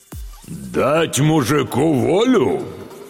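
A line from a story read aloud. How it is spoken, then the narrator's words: Loud booming bass. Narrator (Russian): Федор Кузьмич окатил громким басом всю залу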